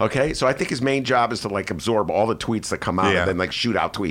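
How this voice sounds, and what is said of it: Usual voice. Nothing is said of it.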